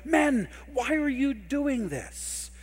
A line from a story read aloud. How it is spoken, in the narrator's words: shouting